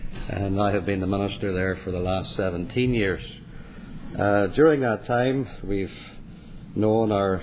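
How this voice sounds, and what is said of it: Northern Irish accent. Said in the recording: “from my accent, you know that's not where I originated, where I came from, Northern Ireland”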